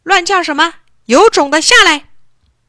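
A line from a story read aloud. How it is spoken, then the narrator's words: Loud, from the water. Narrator (Chinese): 朱德和小伙伴们在水里大声说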